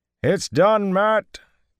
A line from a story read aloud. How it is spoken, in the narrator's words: came Tomanus's shout